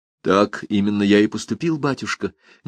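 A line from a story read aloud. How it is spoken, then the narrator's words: Quiet but resolute. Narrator (Russian): негромко, но решительно сказал Фернан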